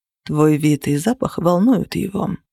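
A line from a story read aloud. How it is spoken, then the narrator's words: Calm remark. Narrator (Russian): спокойно заметил Зеро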